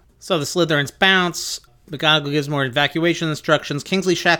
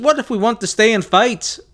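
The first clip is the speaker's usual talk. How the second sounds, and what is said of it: Poorly done put-on accent. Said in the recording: “my accents are atrocious”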